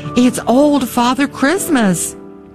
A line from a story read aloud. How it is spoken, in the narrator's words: we cried in the same breath